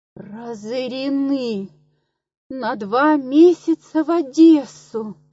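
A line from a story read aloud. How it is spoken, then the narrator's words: Moan. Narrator (Russian): простонала Лидия Егоровна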